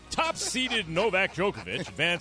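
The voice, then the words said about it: Sports announcer voice. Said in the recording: “I got to get my announcer voice on.”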